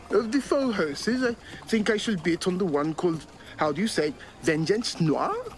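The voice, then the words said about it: Questionable put-on Dutch accent. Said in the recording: “Using a Dutch accent, most questionable.”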